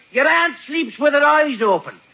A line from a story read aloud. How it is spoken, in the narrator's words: he yells